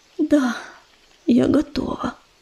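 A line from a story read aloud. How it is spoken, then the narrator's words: Barely audible, strained. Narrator (Russian): еле слышно выдавила она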